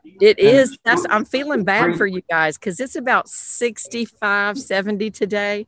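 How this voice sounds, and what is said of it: Southern US accent. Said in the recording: “your accent ... I'm South Carolina, Southern girl”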